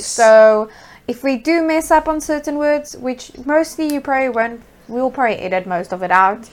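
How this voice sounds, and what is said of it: Afrikaans-accented English. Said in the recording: “a word in our native home language, which is Afrikaans. That's why we have an accent... English is not our first language.”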